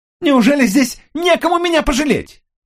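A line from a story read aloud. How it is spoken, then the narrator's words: Shouting back. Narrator (Russian): закричала она в ответ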